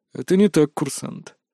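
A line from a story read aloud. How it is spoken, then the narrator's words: Calm objection. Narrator (Russian): также спокойно возразил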